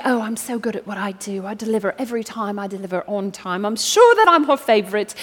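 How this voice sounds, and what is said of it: Put-on British accent. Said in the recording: “I gave the good pot a British accent, not sure. It may have been Cockney accent,”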